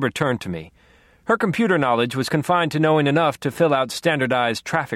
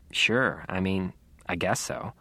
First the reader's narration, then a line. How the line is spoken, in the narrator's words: mumbled